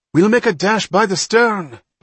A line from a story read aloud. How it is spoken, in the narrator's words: Bonterre cried